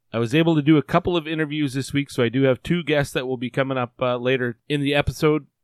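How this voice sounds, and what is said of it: Hoarse, worn-out sick voice. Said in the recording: “I don't know if you can tell right now, but my voice is shot ... I've got COVID right now”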